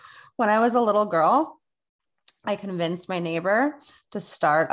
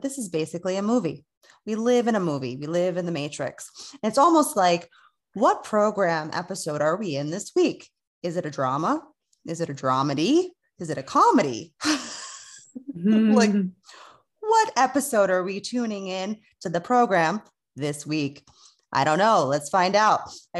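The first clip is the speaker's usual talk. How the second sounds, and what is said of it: Radio announcer voice. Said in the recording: “that was very, very radio station tone. ... put on my radio voice”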